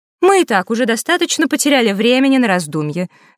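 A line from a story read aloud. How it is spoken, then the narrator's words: Said sharply, fairy. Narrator (Russian): резко сказала фея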